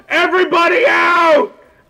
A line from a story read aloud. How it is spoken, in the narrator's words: they're just yelling